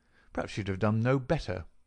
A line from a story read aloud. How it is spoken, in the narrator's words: I answered bitterly